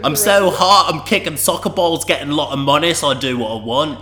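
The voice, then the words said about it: Put-on parody accent. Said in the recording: “We're just going to do the potty in this accent.”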